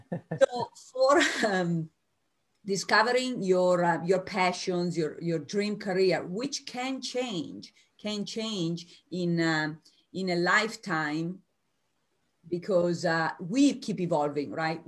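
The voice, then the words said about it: Italian American accent. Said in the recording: “I'm Italian American, so I still have an accent. Okay, it's there.”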